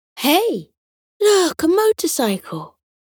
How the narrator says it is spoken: Potato exclaimed

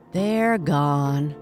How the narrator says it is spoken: sighed the groundhog and his wife

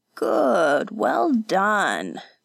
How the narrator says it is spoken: the old man chuckled

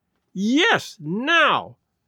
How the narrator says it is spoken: cried Mrs

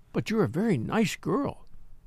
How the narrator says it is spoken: said Miss Viner kindly

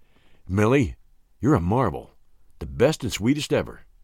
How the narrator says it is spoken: whispered

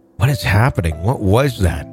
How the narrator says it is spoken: my mom whispered

